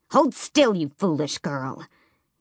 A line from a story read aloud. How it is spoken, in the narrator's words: Yellowlegs hissed